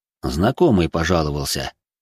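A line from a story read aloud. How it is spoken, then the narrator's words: Snorting. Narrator (Russian): хмыкнул Патруш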